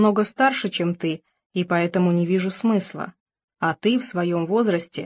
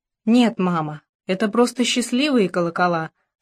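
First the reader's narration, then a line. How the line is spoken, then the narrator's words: Plain. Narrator (Russian): сказала Алекса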